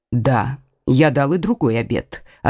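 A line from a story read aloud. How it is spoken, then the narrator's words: Completely calm. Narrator (Russian): ответил Лямоль совершенно спокойно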